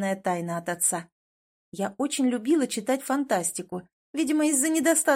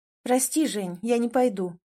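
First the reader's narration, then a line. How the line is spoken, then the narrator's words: Calm. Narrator (Russian): ответила спокойно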